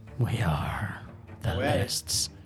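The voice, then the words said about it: Imitates an actor's Batman voice. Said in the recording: “my Robert Pattinson Batman impression”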